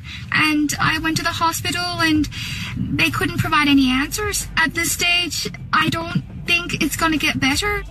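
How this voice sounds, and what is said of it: Irish accent. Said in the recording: “An Australian woman... sporting an Irish accent. It's called foreign accent syndrome... Sounds like a dairy girl.”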